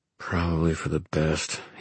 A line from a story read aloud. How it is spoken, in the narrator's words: he muttered to himself